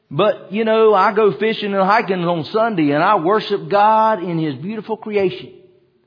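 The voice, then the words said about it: Put-on country accent. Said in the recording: “I don't know why I went to my country accent for that.”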